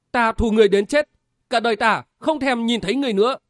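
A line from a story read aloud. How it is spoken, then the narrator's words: Crying out in tears. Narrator (Vietnamese): Lê Tường nước mắt lại tuôn trào, kêu lên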